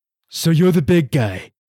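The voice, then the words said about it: Imitates another person's voice. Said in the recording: “your impression of him from Santa Claus 3”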